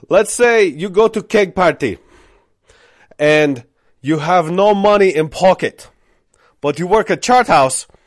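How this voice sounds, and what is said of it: Deliberately bad imitated foreign accent. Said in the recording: “this is going to be a horrible accent”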